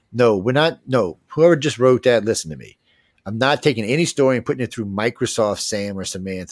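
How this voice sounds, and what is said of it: Cajun accent. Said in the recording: “my damn coon-ass accent”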